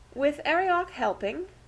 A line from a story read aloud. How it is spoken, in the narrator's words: she inquired anxiously